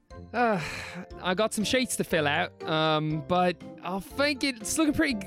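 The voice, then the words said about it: Put-on Liverpudlian accent. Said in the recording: “Oh, I've slipped into some Liverpudlian accent ... it sounds perfect to me ... Suddenly a member of the Beatles is the inspector”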